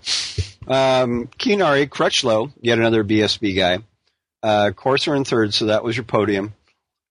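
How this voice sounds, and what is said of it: Hoarse voice from a cold. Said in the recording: “my voice is a little bit tweaked here. I unfortunately think that I've had a bit of a cold the last few days”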